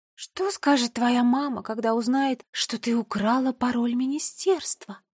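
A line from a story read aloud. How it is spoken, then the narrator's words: Smiling purr. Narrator (Russian): промурлыкала Нола с улыбкой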